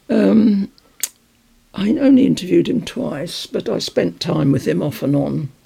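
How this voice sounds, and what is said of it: Voice nearly gone. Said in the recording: “I knew this would happen. My voice is gone.”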